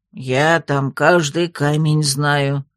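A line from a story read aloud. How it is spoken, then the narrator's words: Suddenly offended. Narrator (Russian): вдруг обиделся Тробер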